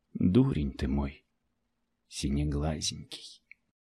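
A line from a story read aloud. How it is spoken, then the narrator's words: Tender whisper. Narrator (Russian): нежно прошептала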